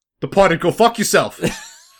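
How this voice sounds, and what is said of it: Boston accent, The Departed character. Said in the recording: “do the Departed voice ... I could do any character in The Departed ... Boston accent”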